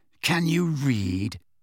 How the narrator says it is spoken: Draco Malfoy laughed

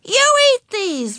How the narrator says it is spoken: Ramona yelled

